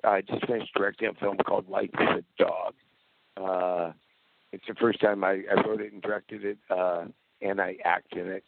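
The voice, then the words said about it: Slightly hoarse voice. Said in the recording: “that's my voice being a bit hoarse this morning”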